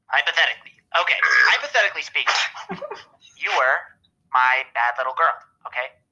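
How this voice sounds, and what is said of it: Imitates another person's voice. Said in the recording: “Stop imitating me like that.”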